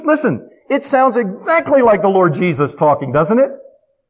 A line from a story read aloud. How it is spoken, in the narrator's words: He cried with a loud voice